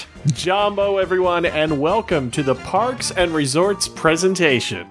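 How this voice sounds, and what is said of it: Exaggerated announcer voice. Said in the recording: “announcer voice”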